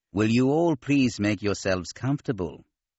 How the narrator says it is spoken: Cien Sov said in his nasal voice

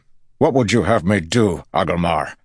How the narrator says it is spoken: Lan barked

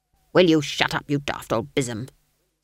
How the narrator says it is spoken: snapped Granny

